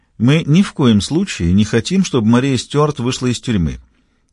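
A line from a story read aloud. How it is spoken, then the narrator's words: Calm, smooth. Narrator (Russian): спокойно и плавно заговорил Фаулер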